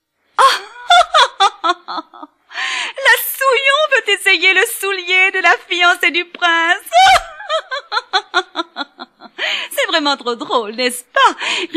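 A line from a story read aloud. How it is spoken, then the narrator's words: Sneering in unison. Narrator (French): ricanèrent en cœur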